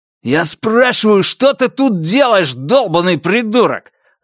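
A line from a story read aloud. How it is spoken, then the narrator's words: Yelling man. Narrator (Russian): заорал мужчина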